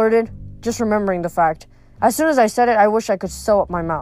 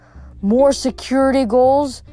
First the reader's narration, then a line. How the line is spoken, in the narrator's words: he moaned